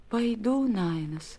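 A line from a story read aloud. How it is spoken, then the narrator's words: Barely audible. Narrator (Russian): чуть слышно ответила Некия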